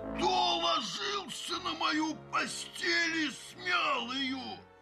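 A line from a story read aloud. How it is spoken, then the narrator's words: Terrible roar. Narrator (Russian): заревел Михаил Иванович страшным голосом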